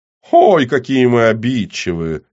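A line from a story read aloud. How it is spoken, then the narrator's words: Giggling. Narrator (Russian): вновь хихикнул Рыжий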